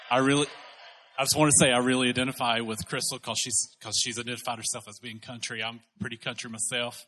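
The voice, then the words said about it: Southern US country accent. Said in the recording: “my accent,... I'm from South Carolina... you sound like the people back home... I love your accent”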